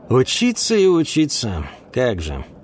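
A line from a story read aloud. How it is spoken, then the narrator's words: Muttering. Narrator (Russian): пробормотал Ульм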